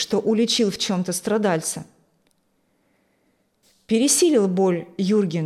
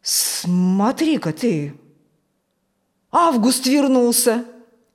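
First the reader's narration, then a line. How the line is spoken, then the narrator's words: Surprised exclamation. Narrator (Russian): Удивленно воскликнул Фокт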